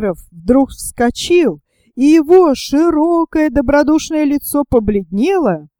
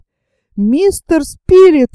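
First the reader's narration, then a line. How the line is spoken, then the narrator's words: Exclaimed. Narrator (Russian): воскликнул моряк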